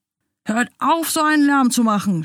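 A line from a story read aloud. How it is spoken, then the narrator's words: Shouted. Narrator (German): schrie er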